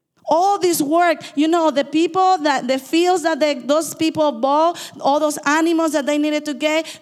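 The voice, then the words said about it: Fast speech with an accent. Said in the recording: “I talk too fast in my accent”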